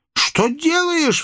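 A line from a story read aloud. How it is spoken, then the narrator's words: Angry cry. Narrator (Russian): вскричала она сердито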